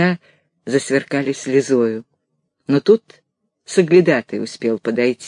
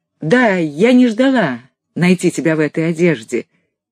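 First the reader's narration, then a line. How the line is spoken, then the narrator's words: Loud. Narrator (Russian): громко сказала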